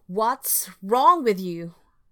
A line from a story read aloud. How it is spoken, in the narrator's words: yelled